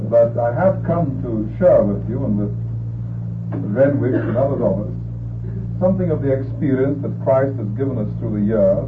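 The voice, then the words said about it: English accent. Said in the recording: “I am, as you recognize, an Englishman... you recognize it anyhow by my accent.”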